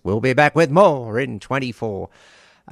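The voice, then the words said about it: Wrestling ring announcer voice. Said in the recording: “in my best ring announcer voice,”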